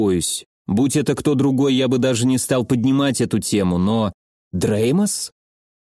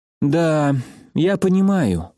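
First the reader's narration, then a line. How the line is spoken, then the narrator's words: Weary sigh. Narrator (Russian): устало вздохнула Марина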